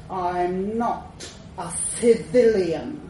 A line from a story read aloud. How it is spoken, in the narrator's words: snarled